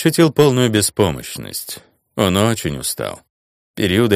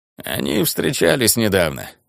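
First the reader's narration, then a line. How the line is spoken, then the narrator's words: Creaky damaged voice. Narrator (Russian): проскрипел Грегста, связки которого были повреждены, когда его пытались повесить где-то в Ириасте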